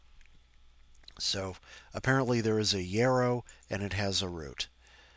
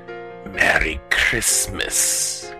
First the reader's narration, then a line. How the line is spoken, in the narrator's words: it hissed